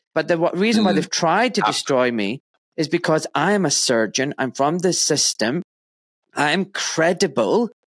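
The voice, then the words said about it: Glaswegian Scottish accent. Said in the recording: “I've got a nice Glaswegian accent.”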